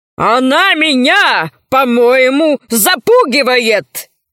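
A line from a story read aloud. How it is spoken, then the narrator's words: Barked. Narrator (Russian): рявкнул адмирал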